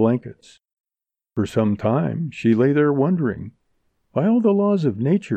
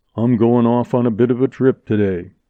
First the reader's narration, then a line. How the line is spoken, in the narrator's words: he said